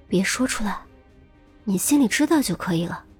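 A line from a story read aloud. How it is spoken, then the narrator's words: Sweet soft whisper. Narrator (Chinese): 严心爱恢复成为了邻家少女可爱甜美的样子，小声说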